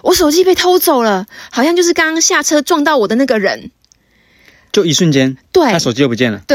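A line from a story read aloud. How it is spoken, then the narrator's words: Sudden scream. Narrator (Chinese): 我学妹她突然 尖叫说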